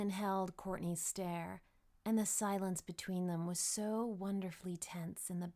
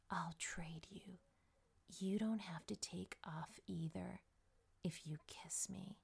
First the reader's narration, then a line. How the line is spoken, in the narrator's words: she whispered